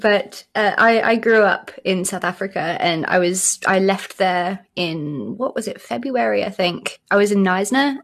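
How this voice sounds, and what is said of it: British accent. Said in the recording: “both of you do not have South African accents ... both British accents ... I don't know how I've kept the British accent”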